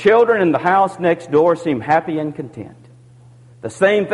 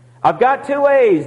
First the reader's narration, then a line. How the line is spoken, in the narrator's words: the young boy cried